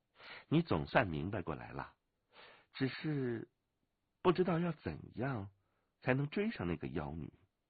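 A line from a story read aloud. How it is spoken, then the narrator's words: Smiling. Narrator (Chinese): 武清微笑了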